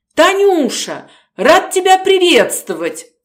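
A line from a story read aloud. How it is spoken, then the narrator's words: Cheerful, joyful. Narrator (Russian): Голос его звучал бодро и радостно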